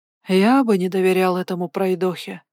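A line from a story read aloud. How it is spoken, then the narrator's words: Sighing. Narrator (Russian): вздохнул Бестваж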